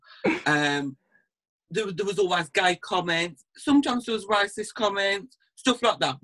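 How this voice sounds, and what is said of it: Camp-sounding voice. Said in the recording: “I've always been quite campy. If you can't tell by my voice”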